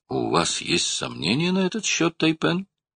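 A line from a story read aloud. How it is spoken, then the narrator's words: Joyful question. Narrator (Russian): радостно спросил Скиннер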